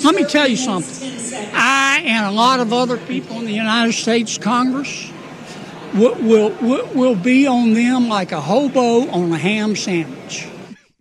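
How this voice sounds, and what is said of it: Thick Southern accent. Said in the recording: “Don't we know that guy fakes his accent? ... Is he a fake accent guy? ... The Southerners have one-liners and phrasings ... he lays it on extra thick ... He gets real deep and thick with it”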